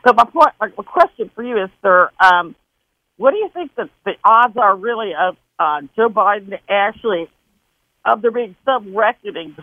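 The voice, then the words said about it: Mixed Wisconsin and Southern accent. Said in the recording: “I got the Wisconsin accent and a Southern accent mixed together. It's weird.”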